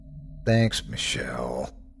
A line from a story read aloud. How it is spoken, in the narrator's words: I groaned